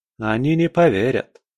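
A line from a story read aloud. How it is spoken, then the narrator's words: Sighing. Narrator (Russian): вздохнул Малик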